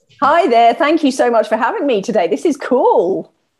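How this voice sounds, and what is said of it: Southern English accent. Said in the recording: “We love your accent... It's from the south of England.”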